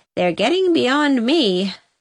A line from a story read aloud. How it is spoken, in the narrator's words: sighed Susan helplessly